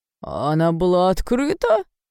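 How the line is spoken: Old man moaning. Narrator (Russian): старик застонал

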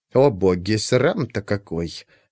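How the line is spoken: Grumbling undertone. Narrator (Russian): проворчала вполголоса ключница

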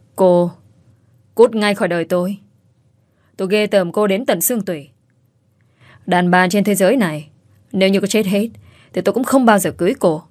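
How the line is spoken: Cold. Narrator (Vietnamese): Hải Phong lạnh lùng nói

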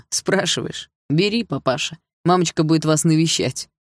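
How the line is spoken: Laughing chuckle. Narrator (Russian): хохотнул Лёха

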